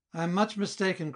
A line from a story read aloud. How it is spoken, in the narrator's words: cried he